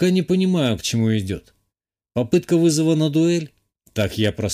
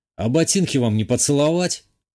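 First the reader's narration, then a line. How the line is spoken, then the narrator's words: Scoffing grunt. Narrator (Russian): хмыкнул я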